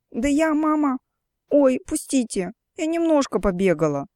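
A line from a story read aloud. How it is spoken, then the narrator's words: Whimpering while struggling. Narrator (Russian): хныкала Оля, силясь освободиться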